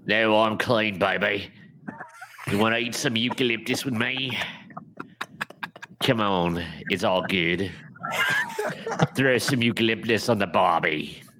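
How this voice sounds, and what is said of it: Put-on Australian accent. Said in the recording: “with an Australian accent”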